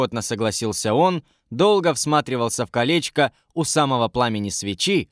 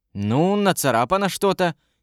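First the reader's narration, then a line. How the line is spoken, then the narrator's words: Uncertain agreement. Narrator (Russian): неуверенно согласилась Варя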